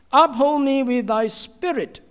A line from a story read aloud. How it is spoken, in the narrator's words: the psalmist cried out to God